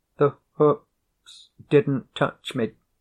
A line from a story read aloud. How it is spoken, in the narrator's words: said shakily